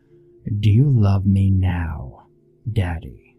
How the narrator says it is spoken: glaring hard, and growl out

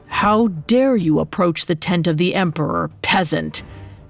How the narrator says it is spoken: One of them growled

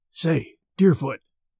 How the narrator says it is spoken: whispered Merritt

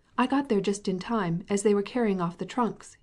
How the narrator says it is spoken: he exclaimed

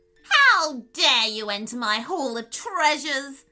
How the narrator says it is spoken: She screeched

